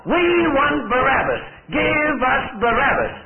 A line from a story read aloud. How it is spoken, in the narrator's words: they yell out the more